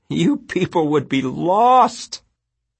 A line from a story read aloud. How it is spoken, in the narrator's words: Janet said again with fierce glee